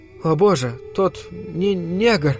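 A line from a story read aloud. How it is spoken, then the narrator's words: Stammering. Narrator (Russian): Заикаясь, попыталась продолжить девушка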